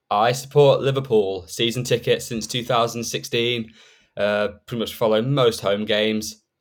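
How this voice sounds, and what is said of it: English accent. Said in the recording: “as you can probably tell by the accent, I am an England fan”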